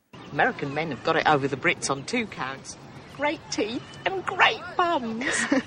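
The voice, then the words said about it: Woman's British accent. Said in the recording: “got a fine British accent. ... as a British woman”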